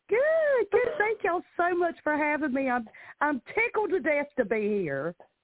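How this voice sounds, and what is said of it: Southern American accent. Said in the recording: “I love your accent, girl. ... Good old Southern accent.”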